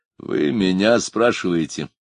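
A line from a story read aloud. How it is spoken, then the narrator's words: Weary sigh. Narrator (Russian): устало вздохнул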